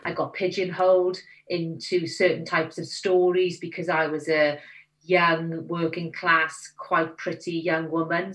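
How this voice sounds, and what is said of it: Welsh accent. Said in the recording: “my accent ... I was determined not to lose my accent because I was Welsh”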